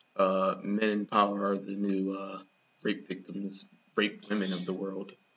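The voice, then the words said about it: Imitates another person's voice. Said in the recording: “In my Bette Midler voice”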